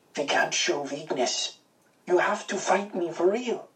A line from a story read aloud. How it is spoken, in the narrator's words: Over the jeers of the crowd, I heard him whisper